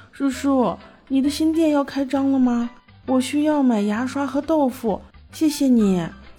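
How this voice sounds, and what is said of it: Childlike, tender voice. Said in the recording (Chinese): “用稚嫩的声音说”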